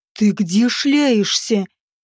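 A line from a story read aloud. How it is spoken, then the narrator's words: Furious hiss. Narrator (Russian): Взбешенно прошипел Наагариш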